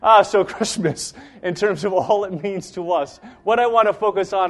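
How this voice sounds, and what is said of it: Usual voice. Nothing is said of it.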